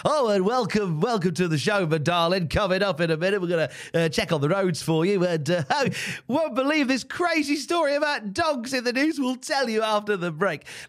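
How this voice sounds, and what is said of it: Cliched British radio presenter voice. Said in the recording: “that's the cliched radio voice”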